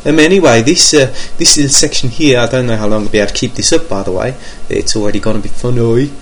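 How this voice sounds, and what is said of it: Put-on Brummie (Birmingham) accent. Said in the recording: “I thought I'd speak in a different accent for a little bit ... so I thought I'd try out some of my Brummo that I've been learning since living in Birmingham”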